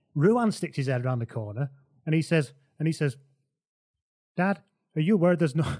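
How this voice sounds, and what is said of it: Put-on Irish accent. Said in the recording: “I'm still doing the Irish accent. I've lost it. ... I'm locked in the Irish one now.”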